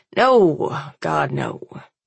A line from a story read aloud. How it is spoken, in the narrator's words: he grumbles, his face turning slightly green